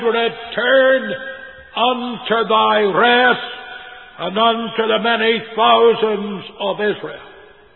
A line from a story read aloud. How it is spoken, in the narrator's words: Moses cried